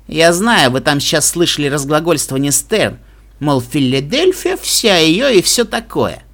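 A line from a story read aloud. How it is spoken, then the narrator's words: Plain. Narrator (Russian): сказала Блад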